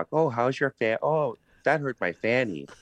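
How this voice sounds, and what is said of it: Imitated Wisconsin accent. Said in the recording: “that sort of sounds like Wisconsin to me a little ... that's not bad for a New Jersey guy”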